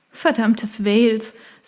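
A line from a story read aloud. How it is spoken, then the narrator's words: Embarrassed laugh. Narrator (German): sagte sie und lachte verlegen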